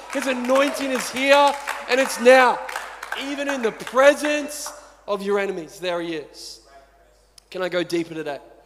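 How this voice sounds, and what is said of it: Yelling, passionate loud preaching. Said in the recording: “I'm yelling a lot, but I'm probably not going to stop yelling”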